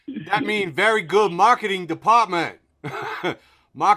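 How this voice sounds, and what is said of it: Exaggerated unidentified foreign accent. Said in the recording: “I don't even know what accent that is, but it's got to be somehow racist.”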